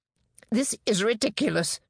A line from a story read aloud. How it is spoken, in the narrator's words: John snapped